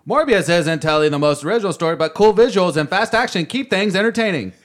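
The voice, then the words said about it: Mock promotional audience-blurb voice. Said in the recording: “in my best audience blurb voice.”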